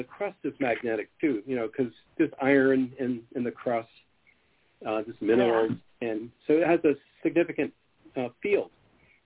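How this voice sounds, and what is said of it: Voice sounds sick with cold. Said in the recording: “I have a cold”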